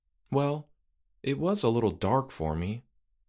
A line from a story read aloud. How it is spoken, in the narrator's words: she replied meekly